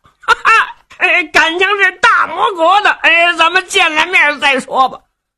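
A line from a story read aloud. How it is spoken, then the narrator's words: Hearty laughter. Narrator (Chinese): 李元霸哈哈一笑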